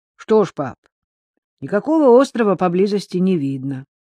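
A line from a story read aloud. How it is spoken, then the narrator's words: Teenage boy, calm statement. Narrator (Russian): Его 14-летний сын Джей спокойно констатировал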